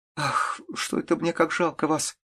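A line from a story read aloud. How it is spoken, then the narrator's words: Tearful speech. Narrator (Russian): сказала она сквозь слезы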